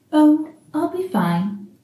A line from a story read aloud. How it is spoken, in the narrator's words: Aziraphale says, smiling weakly